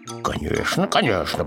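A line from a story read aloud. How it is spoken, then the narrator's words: Neighbor's mutter. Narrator (Russian): пробормотал сосед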